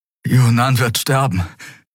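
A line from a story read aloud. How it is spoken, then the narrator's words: Panting. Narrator (German): keuchte Kai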